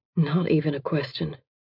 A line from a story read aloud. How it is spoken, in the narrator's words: he murmurs